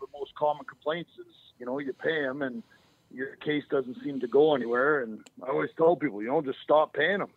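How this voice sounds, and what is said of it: Northern North American accent. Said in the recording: “you don't sound like you're from Arizona. I was going to guess, Ely, Minnesota. You sound like you have a northern accent for sure.”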